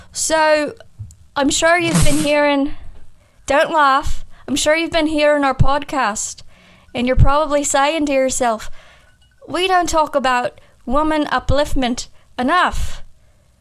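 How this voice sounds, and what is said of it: Put-on Scottish accent. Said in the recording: “I'll talk about the Bechdel test in my Scottish accent ... Scotland is more in the back of the throat.”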